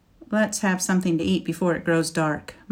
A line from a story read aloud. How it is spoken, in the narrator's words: Mikhail said